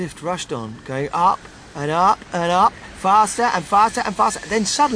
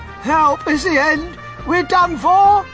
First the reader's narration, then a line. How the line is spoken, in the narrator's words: Grandpa shouted